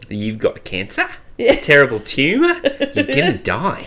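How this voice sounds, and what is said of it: Australian rising intonation, statements sound like questions. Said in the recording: “With Australian rising intonation? Everyone thinks we're asking a question.”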